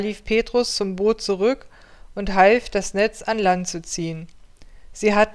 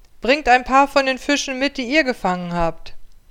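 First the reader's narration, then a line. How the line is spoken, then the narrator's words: Calling out. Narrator (German): Jesus rief ihnen zu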